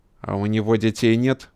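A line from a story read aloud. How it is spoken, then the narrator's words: Angry question. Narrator (Russian): зло спросил Карпенко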